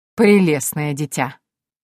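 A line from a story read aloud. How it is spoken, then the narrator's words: Short laugh. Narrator (Russian): хохотнул Мариес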